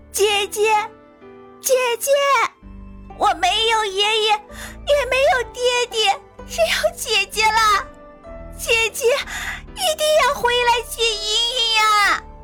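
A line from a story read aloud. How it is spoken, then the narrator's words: Crying child's wail. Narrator (Chinese): 茵茵哭喊的声音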